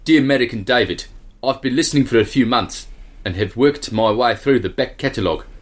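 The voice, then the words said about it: South African accent. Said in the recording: “South African will suffice”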